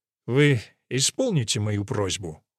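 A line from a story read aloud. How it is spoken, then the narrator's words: Cold clarification. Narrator (Russian): холодно уточнила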